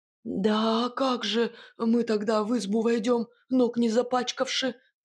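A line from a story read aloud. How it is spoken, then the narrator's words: Squeamish, hoarse voice. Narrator (Russian): брезгливо уточнил сиплый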